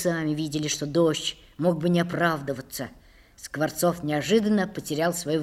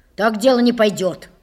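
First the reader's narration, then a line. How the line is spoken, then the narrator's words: Angry declaration. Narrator (Russian): сердито заявил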